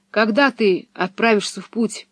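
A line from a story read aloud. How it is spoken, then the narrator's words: Trembling voice. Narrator (Russian): спросил Томми дрогнувшим голосом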